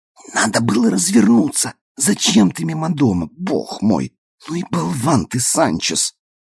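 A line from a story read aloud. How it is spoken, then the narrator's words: Frightened whisper. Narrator (Russian): она пригнулась испуганно и зашептала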